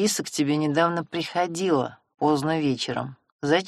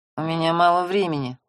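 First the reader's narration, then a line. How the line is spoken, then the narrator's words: Through gritted teeth. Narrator (Russian): процедил Семён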